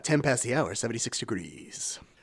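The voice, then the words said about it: Radio announcer voice. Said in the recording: “I'm using my radio voice”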